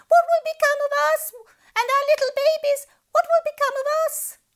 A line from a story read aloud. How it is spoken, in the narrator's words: The poor fish panicked wailing